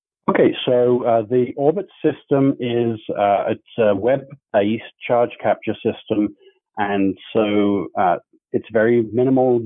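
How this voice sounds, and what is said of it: Speaks with a noticeable accent. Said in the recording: “I do have to say I love your accent”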